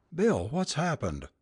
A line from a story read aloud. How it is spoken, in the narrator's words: cried Carol when she saw his white and terrified face